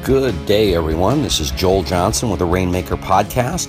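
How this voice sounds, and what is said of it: Sleepy, tired-sounding voice. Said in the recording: “my voice is a little sleepy, it's because I'm sitting here in Minneapolis at 6 a.m. in the morning”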